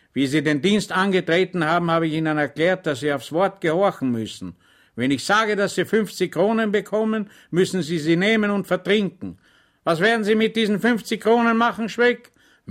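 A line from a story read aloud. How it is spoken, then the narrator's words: Stern officer. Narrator (German): sagte der Oberleutnant streng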